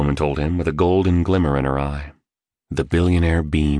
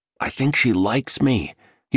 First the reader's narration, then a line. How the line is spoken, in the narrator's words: whispered to his companions